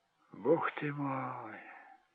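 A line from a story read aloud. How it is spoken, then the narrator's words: Strained utterance. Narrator (Russian): выдавил Джек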